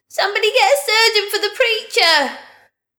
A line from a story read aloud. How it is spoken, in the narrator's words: someone in the crowd shouted